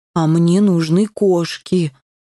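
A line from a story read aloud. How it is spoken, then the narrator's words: Sigh. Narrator (Russian): вздохнул Бум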